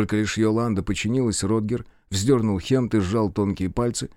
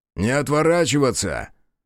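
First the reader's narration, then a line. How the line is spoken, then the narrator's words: Barked. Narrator (Russian): рявкнул Родгер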